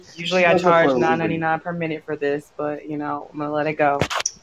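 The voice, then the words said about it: Hoarse, strained voice. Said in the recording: “how's your voice? ... My voice is still shot ... me and her both blew our voices out booing Hulk Hogan”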